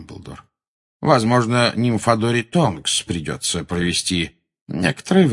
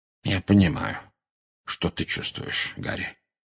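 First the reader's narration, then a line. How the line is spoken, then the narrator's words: Very quiet. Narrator (Russian): очень тихо произнес Дамблдор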